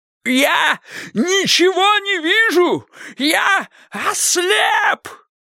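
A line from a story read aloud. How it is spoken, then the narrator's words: Shouting. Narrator (Russian): закричал Кощей Бессмертный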